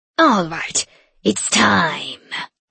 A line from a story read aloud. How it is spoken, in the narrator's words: she growled